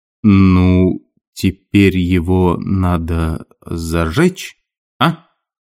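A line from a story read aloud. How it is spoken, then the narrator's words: Embarrassed indistinct mumbling. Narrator (Russian): забормотал что-то невнятное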